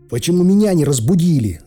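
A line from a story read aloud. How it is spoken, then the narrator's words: Yelling. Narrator (Russian): заорал я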